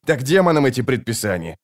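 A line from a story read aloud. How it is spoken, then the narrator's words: Snapping retort. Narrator (Russian): огрызнулся его товарищ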